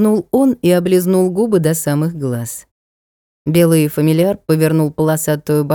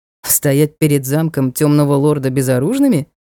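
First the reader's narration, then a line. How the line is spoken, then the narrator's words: Scoffing. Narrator (Russian): хмыкнул рыцарь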